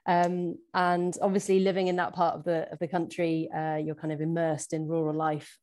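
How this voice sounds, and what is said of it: English Shropshire accent. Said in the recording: “you can probably tell from my accent that I'm not originally from Scotland. I was actually born and brought up in very rural Shropshire”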